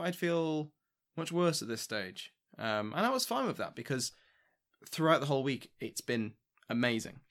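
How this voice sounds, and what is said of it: Tired, worn-out voice. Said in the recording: “I'm, you know, exhausted. You can probably hear it in my voice. My, my, my voice is going.”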